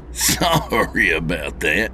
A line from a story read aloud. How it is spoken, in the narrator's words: he said with a chuckle